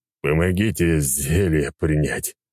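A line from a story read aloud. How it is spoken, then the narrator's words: Moaned. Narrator (Russian): простонал я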